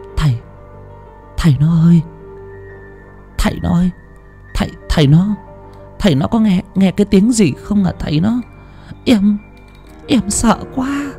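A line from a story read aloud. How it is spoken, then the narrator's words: Frightened trembling stammer. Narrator (Vietnamese): Bà Thủy vẫn đang run run rẩy rẩy, kéo cao tấm chăn mỏng chùm kín người, ngồi sát nép lại bên chồng mà lắp bắp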